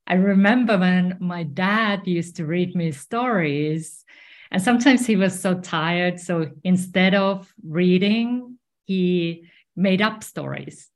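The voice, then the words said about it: Finnish accent. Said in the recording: “if you wondered where this accent is from ... I was growing up in Finland”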